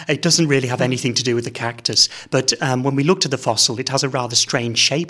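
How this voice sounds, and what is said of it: English accent. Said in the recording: “someone with an English accent”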